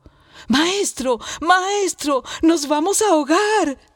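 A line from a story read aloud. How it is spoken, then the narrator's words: Shouting together. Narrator (Spanish): gritaron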